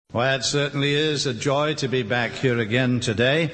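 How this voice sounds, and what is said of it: Welsh accent. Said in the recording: “my accent ... I was born in the little country of Wales”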